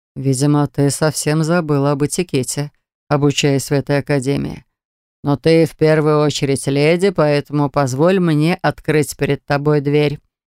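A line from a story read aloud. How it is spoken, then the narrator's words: Fairly soft. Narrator (Russian): проговорил он достаточно мягко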